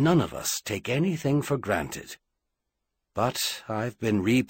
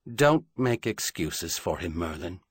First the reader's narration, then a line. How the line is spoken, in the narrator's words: Charlian said sadly